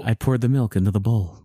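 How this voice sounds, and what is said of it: Serious mock NPR narrator voice. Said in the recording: “Like very serious and with the music ... the NPR voice.”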